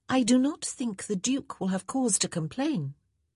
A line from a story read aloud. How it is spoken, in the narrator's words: She tried to keep her voice free of sarcasm as she said